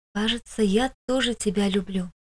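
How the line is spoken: Very quiet whisper. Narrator (Russian): прошептала тихо-тихо

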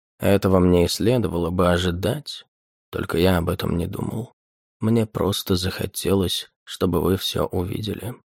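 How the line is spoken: Calm. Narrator (Russian): спокойно ответил он

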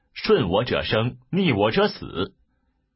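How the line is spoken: Angry rebuke. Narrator (Chinese): 卓怒斥曰

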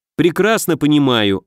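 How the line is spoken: Snapping retort. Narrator (Russian): огрызнулся я

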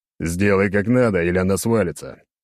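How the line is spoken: Growled. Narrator (Russian): рыкнул

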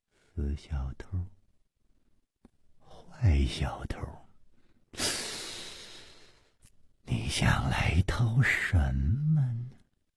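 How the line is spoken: Murmuring to herself. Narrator (Chinese): 喃喃地说

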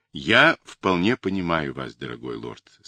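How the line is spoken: Plain. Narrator (Russian): сказал капитан

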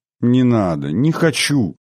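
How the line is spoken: Pleading. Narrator (Russian): взмолилась

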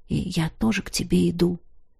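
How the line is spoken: Quiet. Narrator (Russian): тихо добавил он

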